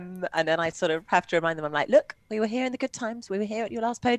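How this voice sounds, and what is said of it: Usual voice. Nothing is said of it.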